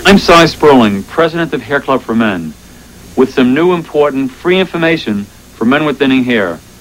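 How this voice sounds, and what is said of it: Strong, unusual regional accent. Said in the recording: “What a ridiculous accent that is. ... Where is this guy from?”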